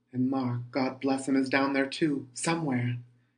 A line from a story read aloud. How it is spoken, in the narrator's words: exclaimed aloud